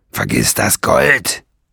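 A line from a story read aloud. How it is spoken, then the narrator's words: Snapping harshly. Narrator (German): schnauzte Nesselbrand ihn an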